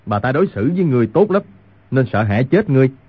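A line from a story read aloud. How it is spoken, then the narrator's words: Loud angry shout. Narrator (Vietnamese): Người nông phu cao giọng quát lên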